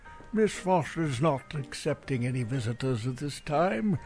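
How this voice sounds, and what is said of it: Put-on posh butler accent. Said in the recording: “What's with the accent?”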